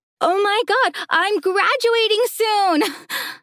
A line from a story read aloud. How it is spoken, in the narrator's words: I yelled again